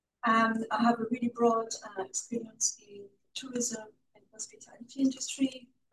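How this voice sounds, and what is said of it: Hybrid French-Irish accent. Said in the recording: “I have a weird hybrid accent because I've lived in Ireland for about 30 years.”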